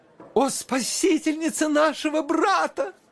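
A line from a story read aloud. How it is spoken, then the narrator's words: Women exclaiming together. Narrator (Russian): воскликнули все 4 дамы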